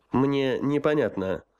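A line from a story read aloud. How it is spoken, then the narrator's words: Dry. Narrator (Russian): сухо сказал генерал-майор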